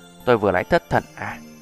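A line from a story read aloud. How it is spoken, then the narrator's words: Sighing. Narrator (Vietnamese): Trì Uyển Thanh thở dài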